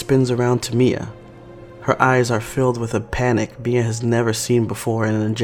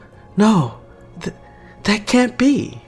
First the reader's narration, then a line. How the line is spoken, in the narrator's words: Renee gasps